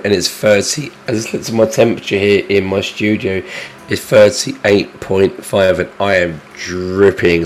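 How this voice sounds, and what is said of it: Hoarse, congested voice with a cold. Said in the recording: “I sound dreadful. ... I've got a cold, I've got a sore throat”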